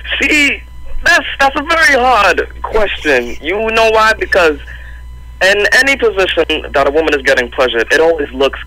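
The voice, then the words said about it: Slight New York accent. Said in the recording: “You sound like you got a little accent there. Just a little.”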